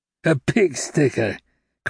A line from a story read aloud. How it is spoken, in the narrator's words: cried Javert